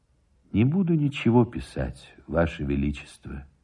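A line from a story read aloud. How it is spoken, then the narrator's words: Sad reply. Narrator (Russian): отвечал печально Никитин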